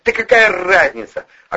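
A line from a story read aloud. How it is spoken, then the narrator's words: Defensive snap. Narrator (Russian): огрызнулся Вовчик, не собираясь признавать свою вину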